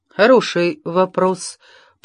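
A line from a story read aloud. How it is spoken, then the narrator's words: Muttered. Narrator (Russian): пробормотала она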